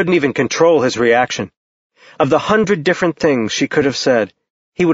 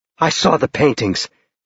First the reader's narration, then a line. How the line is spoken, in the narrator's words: she said hoarsely